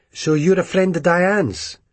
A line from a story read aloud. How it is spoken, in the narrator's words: Her tone was slightly aggressive